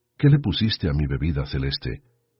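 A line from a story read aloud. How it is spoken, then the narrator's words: Thick, slurred voice. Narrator (Spanish): dijo con la voz gruesa y arrastrada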